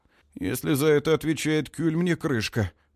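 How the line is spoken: Muttering. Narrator (Russian): бормочет Дан

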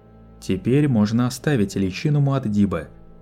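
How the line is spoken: Normal voice. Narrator (Russian): Лето заговорил своим обычным голосом

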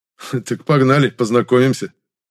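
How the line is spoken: Short laugh. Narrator (Russian): хохотнул Евгений

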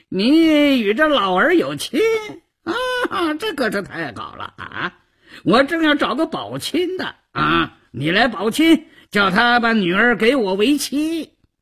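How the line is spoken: Flippant, needling. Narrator (Chinese): 赵都巡……嬉皮笑脸的胡搅蛮缠

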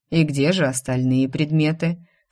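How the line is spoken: King's calm question. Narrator (Russian): спокойно спросил король

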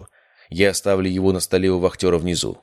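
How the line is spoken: Plain. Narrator (Russian): сказал я

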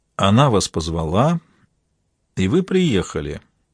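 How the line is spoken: Thoughtful. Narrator (Russian): задумчиво вымолвил Дронго

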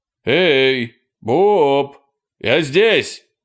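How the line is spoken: Shout. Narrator (Russian): крикнул Эрни

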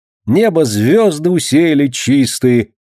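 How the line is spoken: Ringing boyish singing. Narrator (Russian): звонким мальчишеским голосом подтягивал Ленька

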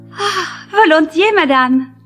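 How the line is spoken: Exclaimed. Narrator (French): s'écria

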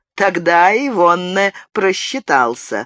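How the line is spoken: Laughing. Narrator (Russian): рассмеялся Амброзио

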